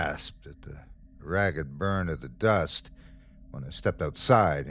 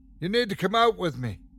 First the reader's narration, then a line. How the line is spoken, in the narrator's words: shouted over the storm